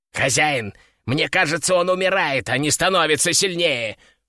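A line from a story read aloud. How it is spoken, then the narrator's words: Panicked squeak. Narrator (Russian): в панике запищал Кеша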